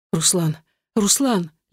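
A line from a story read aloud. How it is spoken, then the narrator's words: Sobbing, stumbling babble. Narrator (Russian): лепетала я, путаясь в словах и захлебываясь в рыданиях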